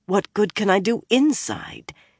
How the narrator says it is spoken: She asked herself fiercely

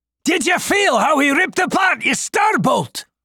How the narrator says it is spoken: Godric yelled to Hugh

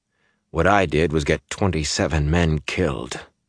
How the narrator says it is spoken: he said bitterly

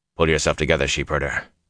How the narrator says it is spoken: Lan said harshly

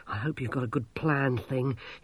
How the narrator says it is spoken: he panted

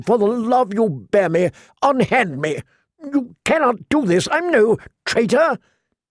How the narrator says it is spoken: the prisoner asked desperately

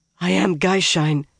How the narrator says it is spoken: the woman hoarsely told

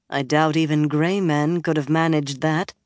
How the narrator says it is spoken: Moiraine said dryly

